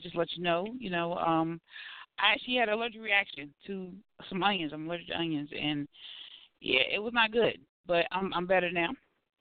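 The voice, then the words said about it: Raspy voice. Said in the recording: “apologize for the raspy voice ... why is ... voice like that? ... my raspy voice tonight”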